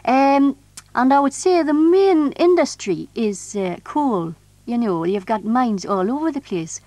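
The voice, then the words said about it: Geordie (Tyneside) English accent. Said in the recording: “you're called, actually, a Tynesider if you live there ... with regard to the accent, as you can hear, it's a bit strange ... If you're a real Geordie”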